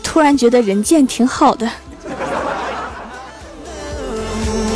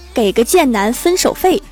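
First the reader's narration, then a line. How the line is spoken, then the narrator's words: Cold sneer. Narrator (Chinese): 那个白富美冷笑一声说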